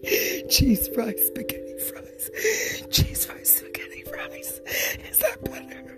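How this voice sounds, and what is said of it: Whispering. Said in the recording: “I feel like I'm getting worse with my whispering ... Shushing isn't part of whispering.”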